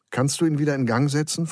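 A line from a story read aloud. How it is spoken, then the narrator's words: Plain question. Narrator (German): fragte Geronimo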